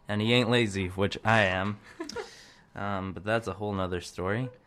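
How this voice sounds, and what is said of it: Put-on accent. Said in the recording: “I don't know why I'm talking with that accent. ... the song is rubbing off on you.”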